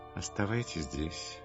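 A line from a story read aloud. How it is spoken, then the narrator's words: Plain. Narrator (Russian): сказал Иисус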